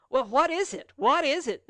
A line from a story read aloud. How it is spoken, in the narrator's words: they all shouted at a time